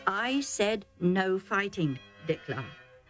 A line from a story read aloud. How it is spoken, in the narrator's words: Isaac said calmly but firmly